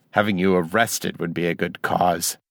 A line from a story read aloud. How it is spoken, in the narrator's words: Janus growled